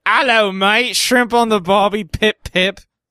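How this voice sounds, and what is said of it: Put-on English accent sounding Australian. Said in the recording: “read it in an English accent ... that sounds more Australian”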